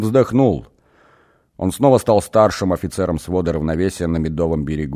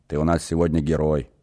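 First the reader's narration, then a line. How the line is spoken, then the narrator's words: Muttering. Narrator (Russian): пробормотал он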